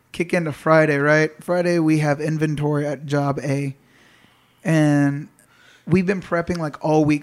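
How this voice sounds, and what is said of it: Rough, strained voice. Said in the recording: “he's sounding like an old granny ... He sounded fucking shaggy ... my voice is still fucked up”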